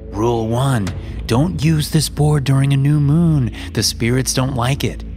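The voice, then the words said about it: Fake creepy voice. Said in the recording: “Using a fake, creepy voice”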